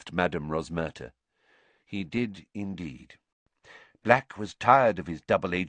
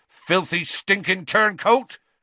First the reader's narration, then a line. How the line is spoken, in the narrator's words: Hagrid said so loudly that half the bar went quiet